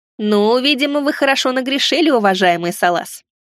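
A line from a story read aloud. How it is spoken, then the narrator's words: Child's amused snort. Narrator (Russian): хмыкнул ребенок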